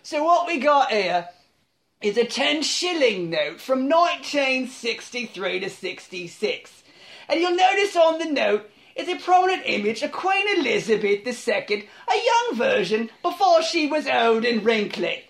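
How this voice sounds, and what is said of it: Rough, tough London character voice. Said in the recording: “a very rough and tough fox that lives outside of a pub in London ... he has a voice like this ... my Vincent Fox impression”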